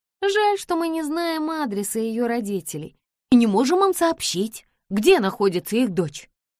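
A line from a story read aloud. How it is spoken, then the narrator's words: Exclamation. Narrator (Russian): воскликнула Джордж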